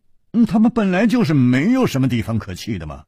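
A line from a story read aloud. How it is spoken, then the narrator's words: Sighing. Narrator (Chinese): 楚留香叹了一口气说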